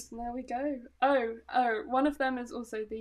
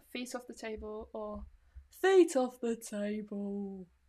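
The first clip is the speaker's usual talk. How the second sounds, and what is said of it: Harry Potter-style British accent. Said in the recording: “the Harry Potter accent challenge”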